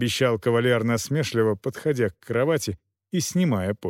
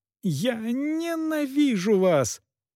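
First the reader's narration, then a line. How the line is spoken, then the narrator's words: Sobbing exclamation. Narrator (Russian): воскликнула госпожа Эшбахта, продолжая рыдать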